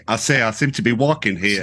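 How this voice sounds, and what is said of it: Put-on New York-southern accent. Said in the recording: “He was born in New York, but he's got a southern... he's got a southern accent. So can you combine those two? That's a tough one.”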